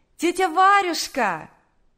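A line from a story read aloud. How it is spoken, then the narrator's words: Shout from afar. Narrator (Russian): крикнула еще с улицы Наташа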